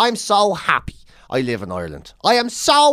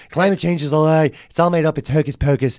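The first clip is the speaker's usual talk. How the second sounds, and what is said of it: Imitates another person's voice. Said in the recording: “I can't do a Trump impression.”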